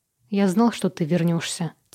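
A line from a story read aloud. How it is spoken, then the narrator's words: Quiet. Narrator (Russian): тихо сказал Джош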